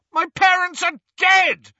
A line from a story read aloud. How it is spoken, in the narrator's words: Harry bellowed